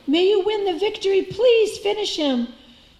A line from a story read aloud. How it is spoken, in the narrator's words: the onlookers cried